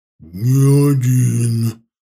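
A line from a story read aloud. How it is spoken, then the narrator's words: Low booming. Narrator (Russian): прогудел он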